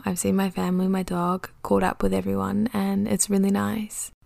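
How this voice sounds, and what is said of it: New Zealand accent. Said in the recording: “I can definitely feel my Kiwi accent coming back a little bit.”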